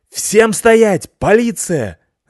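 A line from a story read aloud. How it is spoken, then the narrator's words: Sudden police-voice yell. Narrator (Russian): заорала внезапно Лайса специальным полицейским голосом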